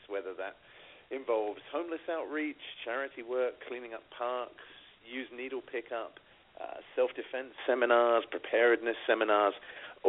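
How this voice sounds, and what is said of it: British accent. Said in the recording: “the pretty British accent”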